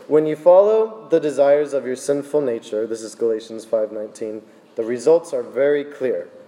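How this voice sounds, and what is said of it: Strained voice, losing his voice. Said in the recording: “Still losing my voice.”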